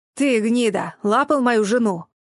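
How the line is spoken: Growling. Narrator (Russian): Матвей рыкнул на Зейда с видом человека, находящегося в своем праве

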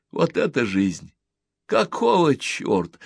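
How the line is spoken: Laughing. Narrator (Russian): он смеялся

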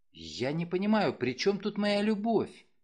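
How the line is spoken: Blushing mumble. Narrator (Russian): пробормотала она краснее

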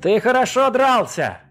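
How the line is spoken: Sincere shout after someone. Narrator (Russian): искренне крикнул ему вслед Хасик

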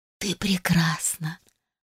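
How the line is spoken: Mother's whisper. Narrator (Russian): прошептала моя мамулечка

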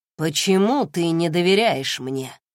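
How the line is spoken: Plain. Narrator (Russian): спросил Райден

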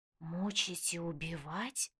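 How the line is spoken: Terrible whisper. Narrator (Russian): страшным шепотом произносит Даша

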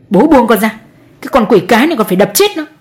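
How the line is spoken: Yell. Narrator (Vietnamese): Chú Đại lại một lần nữa gào lên

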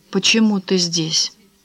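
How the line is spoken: Quiet. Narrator (Russian): тихо проговорила Франсуаза

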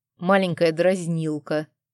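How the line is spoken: Growling. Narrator (Russian): зарычал Арман

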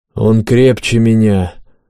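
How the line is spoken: Deep voice, wounded but firm. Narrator (Russian): пробасил Жакоб, бледный от потери крови, но твердо стоящий на ногах

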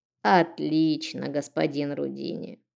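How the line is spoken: Creaky old woman. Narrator (Russian): проскрипела старушка

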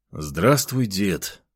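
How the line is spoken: Tired. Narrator (Russian): устало произнес я

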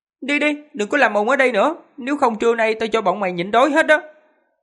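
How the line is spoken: Shout. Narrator (Vietnamese): Trương Tiểu Phàm quát

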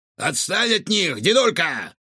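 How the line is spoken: Shouted. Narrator (Russian): крикнул Рикошет

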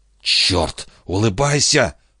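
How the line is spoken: Hiss. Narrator (Russian): прошипел Хилли

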